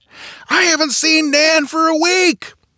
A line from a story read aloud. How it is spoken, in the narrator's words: the woman bellowed in reply